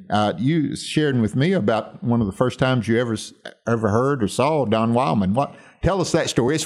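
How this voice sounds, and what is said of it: Deep Southern American accent. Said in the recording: “a deep Southern accent. ... Deeper than mine, if you can believe it.”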